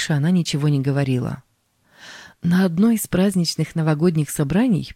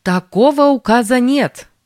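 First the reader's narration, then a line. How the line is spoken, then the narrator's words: Woman's loud shout. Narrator (Russian): женщина-юрист громко выкрикнула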